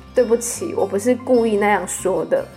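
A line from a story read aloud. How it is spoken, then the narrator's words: Crying hard on phone. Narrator (Chinese): 然后我就在教室办公室对电话大哭，跟电话另一头的我妈说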